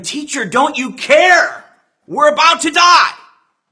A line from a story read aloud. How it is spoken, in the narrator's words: They screamed to him